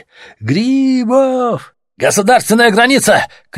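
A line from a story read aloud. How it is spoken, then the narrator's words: Shouted. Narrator (Russian): крикнули им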